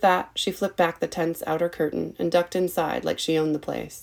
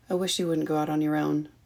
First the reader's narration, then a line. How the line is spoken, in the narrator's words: he murmured into the cup of her ear